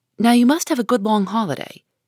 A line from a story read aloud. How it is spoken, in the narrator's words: Joe said hastily